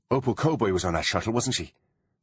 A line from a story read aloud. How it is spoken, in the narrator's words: said Artemis urgently